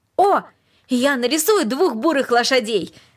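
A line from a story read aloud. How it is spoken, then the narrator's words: Joyful shout. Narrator (Russian): радостно крикнул он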